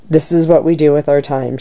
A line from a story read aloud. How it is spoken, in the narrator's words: she said